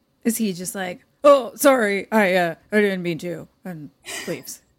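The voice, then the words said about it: High school boy voice. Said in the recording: “Great high school boy impression”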